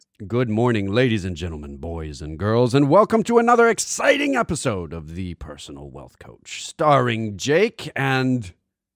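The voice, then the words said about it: Ultra-enthusiastic radio announcer voice. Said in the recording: “in my radio voice ... It was ultra enthusiastic.”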